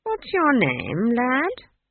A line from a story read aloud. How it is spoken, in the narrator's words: He said, as kindly as possible